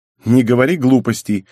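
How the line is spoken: Irritated. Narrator (Russian): бросила она раздраженно

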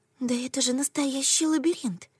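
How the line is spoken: Whisper. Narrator (Russian): шепнула я Рейке

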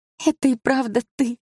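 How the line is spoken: Tearful. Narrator (Russian): сквозь слезы сказала она

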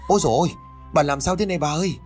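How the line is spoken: Screaming while crying. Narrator (Vietnamese): Tiếng thét kèm với tiếng khóc của con Mận

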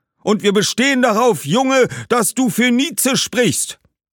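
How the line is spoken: Group calling out. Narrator (German): rief eine Gruppe

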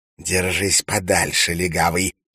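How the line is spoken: Hiss. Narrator (Russian): прошипел Валентин

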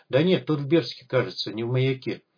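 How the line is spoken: Uncertain, veteran. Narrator (Russian): неуверенно произнес бывалый

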